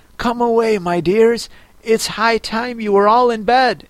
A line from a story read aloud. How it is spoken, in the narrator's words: a canary called out in a trembling voice to its children